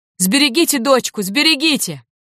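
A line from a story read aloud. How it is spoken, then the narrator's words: Breathless shout. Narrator (Russian): запыхавшись, крикнул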